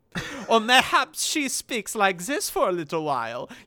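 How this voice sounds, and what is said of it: Deliberately bad put-on accent. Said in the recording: “She switches accents all the time ... the accents are always really bad ... They're all really bad. ... They're all extremely bad. There's not a single good accent in the bunch.”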